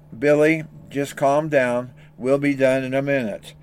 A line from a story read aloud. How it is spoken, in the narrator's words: Dad was quietly saying